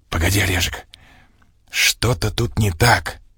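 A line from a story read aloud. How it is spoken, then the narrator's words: Hissing. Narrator (Russian): зашипел я в ответ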